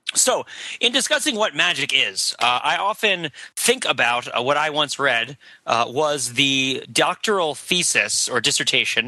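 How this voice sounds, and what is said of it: Hoarse, husky voice. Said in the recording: “My voice is a little bit hoarse today because I was cheering at the football game on Saturday. So if I seem a little bit huskier than usual”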